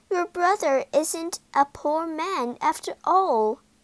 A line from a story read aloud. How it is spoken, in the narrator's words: she cried